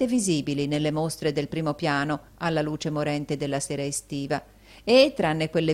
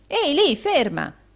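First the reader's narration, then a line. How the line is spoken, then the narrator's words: Shout. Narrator (Italian): gridò Rodolfo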